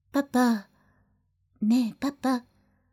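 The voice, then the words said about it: Soft whisper. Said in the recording (Japanese): “そーっとささやきました”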